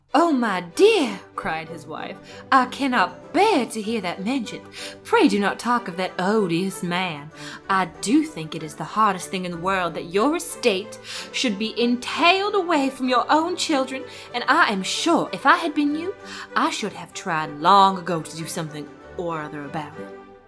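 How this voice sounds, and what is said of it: Character accent for Mrs. Bennet. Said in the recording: “Jane Austen's text in the Mrs. Bennet accent”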